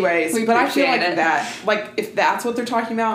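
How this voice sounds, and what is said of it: Usual voice. Nothing is said of it.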